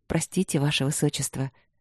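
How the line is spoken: Soft smiling woman. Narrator (Russian): мягко улыбнулась единственная женщина, Виктория Лыськова

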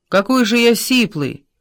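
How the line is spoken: Shout. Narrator (Russian): Сын крикнул

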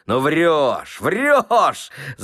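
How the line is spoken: Shouting again. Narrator (Russian): закричал опять Ноздрев

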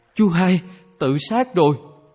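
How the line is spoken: Terrified scream. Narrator (Vietnamese): có người kinh hoàng thét lên

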